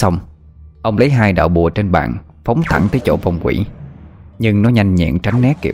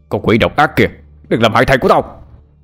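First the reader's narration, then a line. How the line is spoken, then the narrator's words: Furious yell. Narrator (Vietnamese): ông Cương giận dữ gào lên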